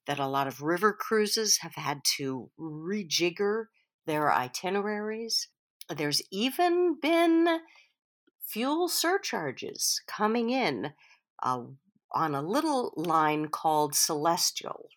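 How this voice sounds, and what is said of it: Voice sounds a little odd, unwell. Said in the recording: “my voice sounds a little odd, I should say that I have COVID right now”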